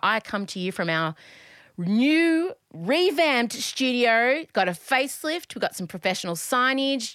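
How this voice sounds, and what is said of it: Smiling, cheerful voice. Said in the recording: “Can you hear the smile in my voice? There's a smile in my voice.”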